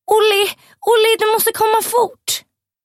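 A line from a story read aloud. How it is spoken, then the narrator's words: Screaming very loudly. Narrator (Swedish): skriker Peggy ännu högre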